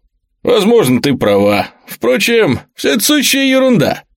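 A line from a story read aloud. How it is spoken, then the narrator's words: Cheerful, laughing. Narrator (Russian): Тайлер весело рассмеялся и заметил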